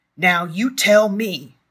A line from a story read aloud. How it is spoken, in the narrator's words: bellowed